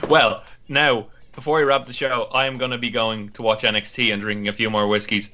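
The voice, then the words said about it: Irish accent. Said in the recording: “lovely Irish accents”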